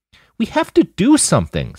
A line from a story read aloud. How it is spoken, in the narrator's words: Sasha choked out